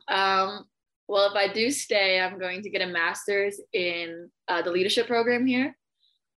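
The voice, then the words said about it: Slight US East Coast accent. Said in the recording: “I hear a hint of the East Coast accent, just a little hint.”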